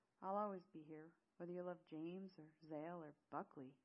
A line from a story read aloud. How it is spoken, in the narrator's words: he chuckled